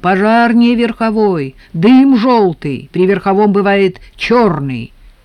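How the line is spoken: Shout. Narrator (Russian): крикнул Леонтьеву

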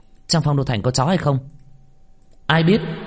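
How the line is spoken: Pleased, loud shout. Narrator (Vietnamese): Minh Vương nghe trong lòng thoải mái, lúc này xoay người quát lên

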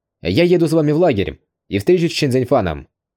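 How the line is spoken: Firm voice. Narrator (Russian): твердым голосом сообщил

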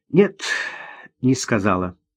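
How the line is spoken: Sighing. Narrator (Russian): вздохнула Ирина

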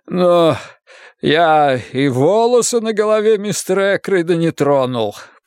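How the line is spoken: Groan. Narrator (Russian): простонал

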